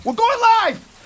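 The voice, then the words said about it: Yelling loudly. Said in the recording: “I don't know why you're yelling.”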